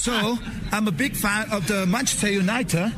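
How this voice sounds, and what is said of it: Attempted British English accent. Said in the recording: “your English is this accent, the British English ... Try and copy it.”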